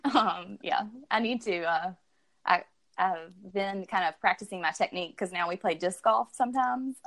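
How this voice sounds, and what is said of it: Alabama accent. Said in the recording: “Alabama. ... Born so and then, raised, if you couldn't tell from the uh ... from accent.”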